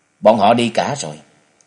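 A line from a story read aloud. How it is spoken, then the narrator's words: Cold, hiding inner emotion. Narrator (Vietnamese): Trần Lâm cũng không khỏi động lòng, trái tim của chàng đập thình thịch, nhưng hắn lại lạnh lùng thành tính nên lên tiếng nói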